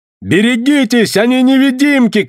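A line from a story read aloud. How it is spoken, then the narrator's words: Shouting. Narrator (Russian): крикнул я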